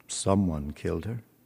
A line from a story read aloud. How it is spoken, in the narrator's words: Stephen said gloomily